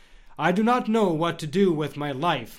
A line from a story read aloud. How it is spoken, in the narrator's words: Mario said